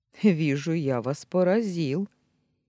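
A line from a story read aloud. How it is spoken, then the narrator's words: Ironic snort. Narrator (Russian): иронично хмыкнул он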